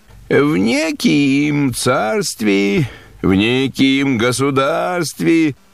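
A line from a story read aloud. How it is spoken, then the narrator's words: Sad sing-song telling. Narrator (Russian): подгорюнилась и начала говорить, немного нараспев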